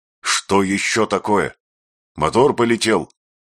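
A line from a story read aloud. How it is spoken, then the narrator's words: Angry question. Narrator (Russian): сердито спросил Гай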